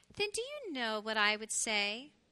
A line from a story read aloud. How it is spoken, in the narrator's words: The mommy hedgehog said tenderly